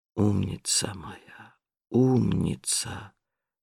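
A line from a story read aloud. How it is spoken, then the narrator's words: Soundless whisper. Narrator (Russian): шептал он беззвучно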